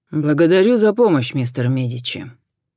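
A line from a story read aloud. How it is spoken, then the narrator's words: Dry thanks. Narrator (Russian): сухо поблагодарил Джон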